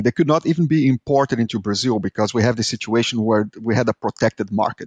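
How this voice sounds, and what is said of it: Strong Brazilian accent in English. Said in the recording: “I am Brazilian, as you can tell by my horrible accent”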